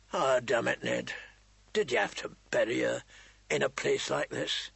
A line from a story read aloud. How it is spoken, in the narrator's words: His voice was hoarse with remembered grief